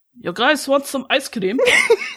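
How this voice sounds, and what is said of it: Put-on Russian accent. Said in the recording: “a notable Russian accent ... Your Russian accent's better than my British one”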